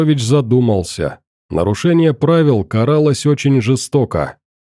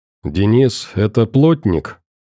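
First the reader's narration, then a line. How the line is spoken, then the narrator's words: Quiet question. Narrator (Russian): тихим голосом спросил Петрович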